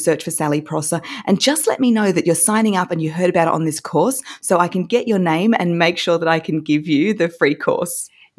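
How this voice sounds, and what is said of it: Noticeable accent. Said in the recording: “I love hearing your accent”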